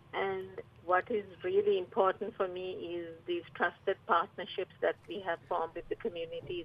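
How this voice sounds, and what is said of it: Slight Sri Lankan accent. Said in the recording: “I noticed a bit of an accent there ... I'm originally from Sri Lanka.”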